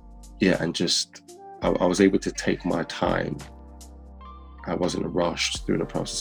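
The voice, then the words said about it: Hints of a Birmingham accent. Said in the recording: “I can hear elements of your Brum accent coming out”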